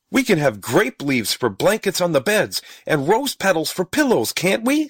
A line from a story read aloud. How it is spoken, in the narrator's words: said Stubby excitedly